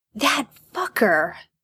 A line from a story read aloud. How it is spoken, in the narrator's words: Jared hisses